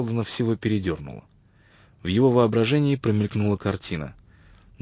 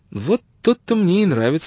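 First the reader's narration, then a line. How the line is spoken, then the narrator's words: Exclaimed. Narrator (Russian): воскликнула Джен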